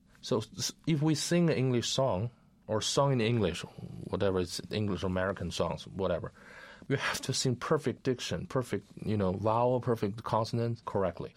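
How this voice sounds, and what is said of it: Speaks English with an accent. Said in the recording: “I have some accent, everybody has different accents.”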